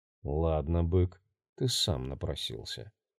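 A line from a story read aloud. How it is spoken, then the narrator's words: Grim resolve. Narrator (Russian): мрачно решил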